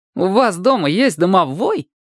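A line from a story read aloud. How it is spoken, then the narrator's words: Cheerful surprise. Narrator (Russian): весело удивился Чебурек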